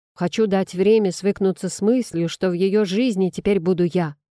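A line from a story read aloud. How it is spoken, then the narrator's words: Sharp. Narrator (Russian): резко проговорил драконит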